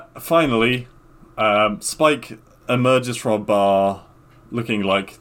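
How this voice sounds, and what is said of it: Usual voice. Nothing is said of it.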